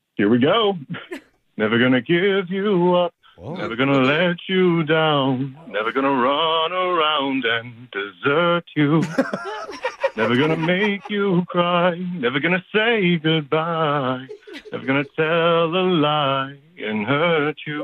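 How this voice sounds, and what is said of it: Sings imitating another person's voice. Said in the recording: “the Rick Astley impersonation”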